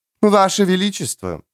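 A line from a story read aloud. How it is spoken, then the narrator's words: Cooing. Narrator (Russian): проворковала графиня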